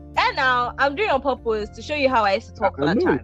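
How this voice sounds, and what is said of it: Exaggerated cartoonish put-on voice. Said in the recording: “cartoon voice ... I'm hearing the voice now”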